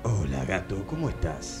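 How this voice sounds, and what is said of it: Radio announcer voice. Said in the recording (Spanish): “voz de locutor ... me suena como al tipo que hace, te hace el programa de 3 a 6 de la mañana”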